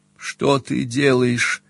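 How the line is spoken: Moaning. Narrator (Russian): простонала она

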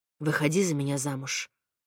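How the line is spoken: Quiet but clear. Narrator (Russian): он, вдруг негромко, но четко произнес

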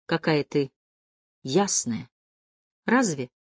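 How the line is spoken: Uncertain question. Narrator (Russian): неуверенно спросила она

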